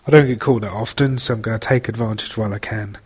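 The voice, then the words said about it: English accent. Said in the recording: “your English gentleman fan ... what my accent would be like”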